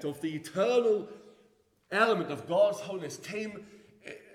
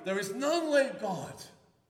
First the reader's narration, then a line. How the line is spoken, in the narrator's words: cries